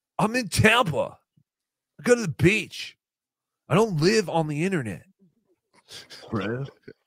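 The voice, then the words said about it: Dumb surfer-dude voice. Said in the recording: “a Chad, like, dumb surfer voice”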